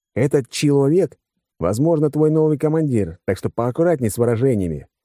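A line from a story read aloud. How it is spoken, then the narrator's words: Wry snort. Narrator (Russian): хмыкнул я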